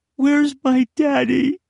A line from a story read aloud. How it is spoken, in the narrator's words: Granger whimpered